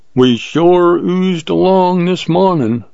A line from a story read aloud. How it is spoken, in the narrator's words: drawled Jim